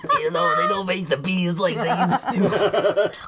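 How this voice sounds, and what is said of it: Imitates Roz from Monsters Inc. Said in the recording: “What are you, Roz from Monsters Inc. now?”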